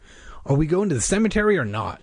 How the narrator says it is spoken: Josh asked impatiently

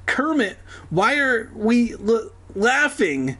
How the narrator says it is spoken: He stammered

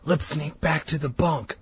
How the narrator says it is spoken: I whispered to Colin

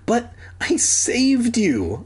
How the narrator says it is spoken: I pleaded

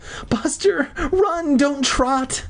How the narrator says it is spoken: Mindy begged

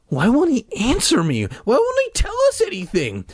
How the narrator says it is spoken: Mike whined like a little bitch

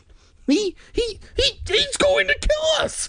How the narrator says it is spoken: Sari screamed

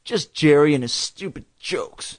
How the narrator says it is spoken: Dad grumbled

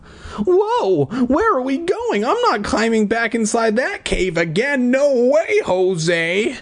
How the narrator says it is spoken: I cried

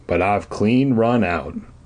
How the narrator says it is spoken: Grandpa Kurt replied with a sigh

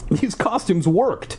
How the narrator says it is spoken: I exclaimed

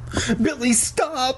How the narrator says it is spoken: Sheena screamed

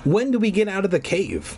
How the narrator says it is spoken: I asked impatiently

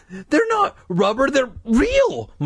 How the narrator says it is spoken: Mike insisted, his voice trembling

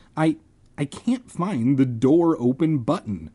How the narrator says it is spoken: I stammered

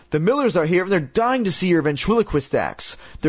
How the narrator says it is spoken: shouted up

